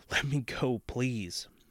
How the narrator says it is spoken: whimpered

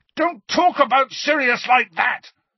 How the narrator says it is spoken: Harry yelled

